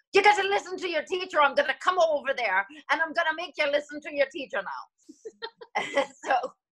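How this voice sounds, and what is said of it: Thick put-on Irish accent. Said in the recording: “they have thick Irish accent”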